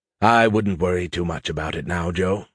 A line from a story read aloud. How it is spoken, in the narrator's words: Skippy said in a soothing tone